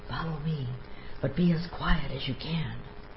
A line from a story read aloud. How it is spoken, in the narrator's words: says in a whisper